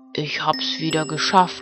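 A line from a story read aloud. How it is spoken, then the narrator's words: Old man murmuring. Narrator (German): hörte er den Alten murmeln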